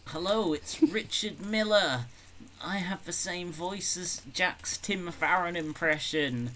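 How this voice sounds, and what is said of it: Imitates another person's voice. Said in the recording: “Do an impression of me”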